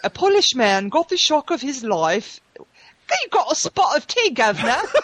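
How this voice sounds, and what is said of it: Put-on British accent, muffled. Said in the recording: “do the news in a British accent ... That sounds like you have a ping pong ball in your mouth.”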